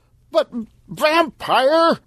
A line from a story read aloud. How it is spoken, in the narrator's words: Stan shouted